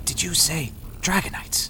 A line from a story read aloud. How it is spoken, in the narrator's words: He whispered